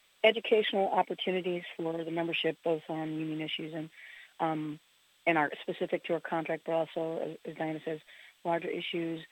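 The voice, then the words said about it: Slightly hoarse voice. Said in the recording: “excuse my voice, it's a little bit hoarse”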